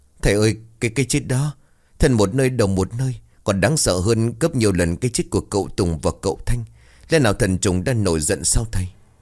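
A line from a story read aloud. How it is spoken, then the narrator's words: Trembling. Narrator (Vietnamese): Cô Hiên run rẩy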